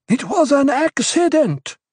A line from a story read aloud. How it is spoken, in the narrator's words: Korba pleaded